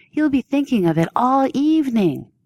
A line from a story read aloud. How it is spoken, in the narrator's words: Kim Cook fake whined